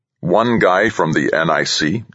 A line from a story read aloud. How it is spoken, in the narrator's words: the president asked